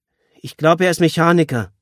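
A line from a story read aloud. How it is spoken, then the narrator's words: Called back. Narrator (German): rief Julia zurück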